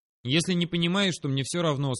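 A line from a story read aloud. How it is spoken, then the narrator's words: Calm. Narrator (Russian): сказал спокойно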